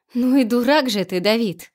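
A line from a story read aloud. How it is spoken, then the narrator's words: Laughing. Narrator (Russian): засмеялась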